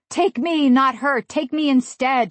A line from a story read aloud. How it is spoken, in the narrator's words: cried